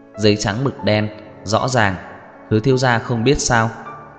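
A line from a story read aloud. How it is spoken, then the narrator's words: Soft laugh, offhand. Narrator (Vietnamese): cười khẽ một tiếng, trong miệng nói không chút để ý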